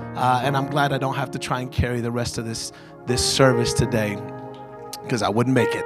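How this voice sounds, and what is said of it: Hoarse, strained, worn-out voice. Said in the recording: “my voice is shot”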